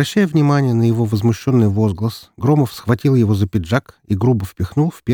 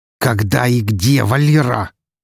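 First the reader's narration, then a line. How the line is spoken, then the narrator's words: Almost growling. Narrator (Russian): едва не прорычал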